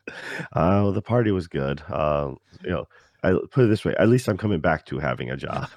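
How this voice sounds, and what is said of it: Tired, slightly sore voice. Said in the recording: “A little tired, and my voice is a little sore ... sorry if I sound a little off today”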